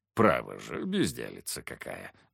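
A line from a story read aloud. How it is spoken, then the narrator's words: Good-natured grumble. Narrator (Russian): беззлобно проворчал Феофан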